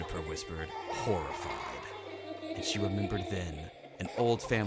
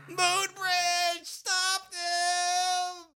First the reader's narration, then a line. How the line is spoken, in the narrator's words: Clay screamed